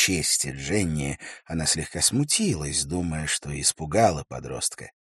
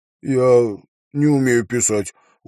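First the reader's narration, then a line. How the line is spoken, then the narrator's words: Glum, young boy. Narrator (Russian): уныло сказал парнишка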